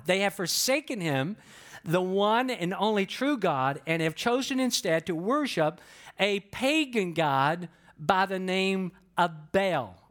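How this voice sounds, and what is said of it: Southern American accent. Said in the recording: “some of you can tell by my accent that I'm not from the Northeast ... I was born and raised, in the South just based on how I talk”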